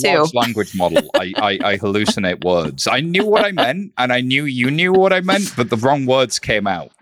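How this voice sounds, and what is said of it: British accent. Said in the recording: “what I am assuming by your accent is that you were born and raised in the United Kingdom”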